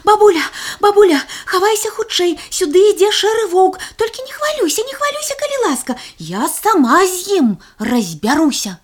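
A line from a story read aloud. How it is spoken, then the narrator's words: Breathless shout. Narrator (Belarusian): Запыхаўшыся, крыкнула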